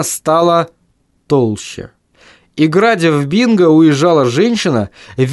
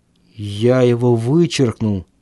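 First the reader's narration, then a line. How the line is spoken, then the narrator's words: Muttered. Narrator (Russian): пробормотал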